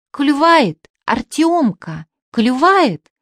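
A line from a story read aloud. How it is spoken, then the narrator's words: Sudden joyful shout. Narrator (Russian): Пепс вдруг радостно закричал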